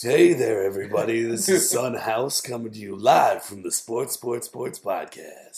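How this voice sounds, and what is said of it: Hoarse, low, husky voice. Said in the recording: “You're not sounding too good ... when I talk in a super sexy voice, it sounds like I haven't completely lost my voice ... It is a pretty sexy voice”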